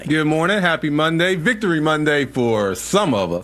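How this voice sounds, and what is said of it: Cheerful, upbeat voice. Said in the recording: “you sound so happy?”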